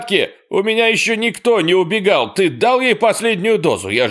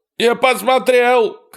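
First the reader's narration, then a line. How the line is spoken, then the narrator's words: Shouting. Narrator (Russian): кричал Эрни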